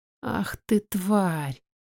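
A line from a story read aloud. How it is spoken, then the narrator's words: Hissed through teeth. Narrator (Russian): шипит сквозь зубы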